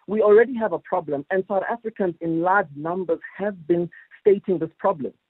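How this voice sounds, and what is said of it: Frustrated, agitated voice. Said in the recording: “As you can hear in my voice, it's frustrating.”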